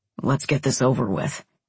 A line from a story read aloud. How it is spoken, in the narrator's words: he grumbled